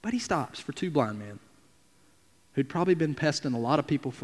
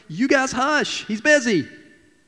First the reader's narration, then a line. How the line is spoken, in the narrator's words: the crowd is yelling